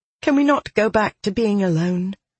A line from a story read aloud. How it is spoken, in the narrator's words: she asked with a sigh